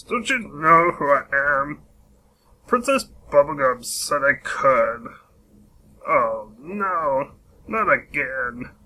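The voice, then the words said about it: Lumpy Space Princess impression. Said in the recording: “Lumpy Space Princess impression ... a good impression”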